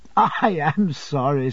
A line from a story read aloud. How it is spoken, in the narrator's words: said I, laughing afresh